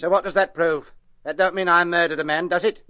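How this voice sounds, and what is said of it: New Zealand accent. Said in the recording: “you've an accent, haven't you? What is it, Australian? No, wait, New Zealand.”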